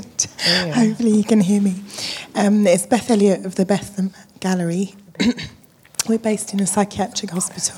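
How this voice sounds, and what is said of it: Hoarse, strained voice. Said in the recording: “Sorry, I've lost my voice.”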